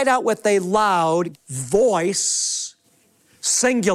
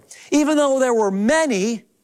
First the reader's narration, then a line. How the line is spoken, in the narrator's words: they cried out with one voice